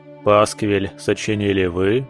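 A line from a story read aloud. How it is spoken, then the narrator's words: Stern question. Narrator (Russian): строго спросил барон у Эрика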